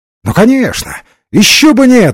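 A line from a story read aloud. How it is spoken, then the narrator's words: Forced hearty exclamation. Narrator (Russian): воскликнул Ренсом, с несколько вымученной сердечностью, обычной для подобных встреч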